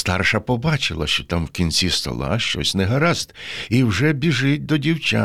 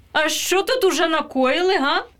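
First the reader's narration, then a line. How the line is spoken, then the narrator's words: Loud menacing shout. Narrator (Ukrainian): Гукнула вона та так грізно та голосно, що Павлусь аж затремтів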